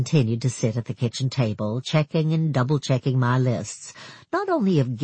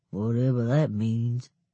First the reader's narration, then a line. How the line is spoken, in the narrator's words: mumbling, she went on